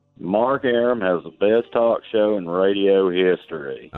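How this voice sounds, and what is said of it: Southern accent. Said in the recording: “you've got a very recognizable Southern accent there ... say that in a Southern accent”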